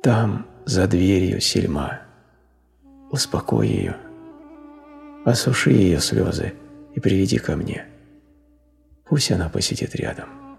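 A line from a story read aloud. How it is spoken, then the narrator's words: Weak, muffled, distant voice. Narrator (Russian): Слабым голосом, который прозвучал так глухо, будто исходил из соседней комнаты, он сказал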